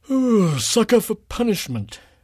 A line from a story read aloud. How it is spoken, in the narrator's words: Philip said through a yawn